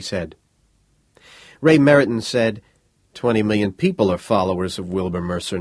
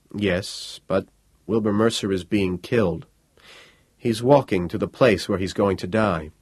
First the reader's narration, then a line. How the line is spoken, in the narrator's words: Quietly, Ray Meriton said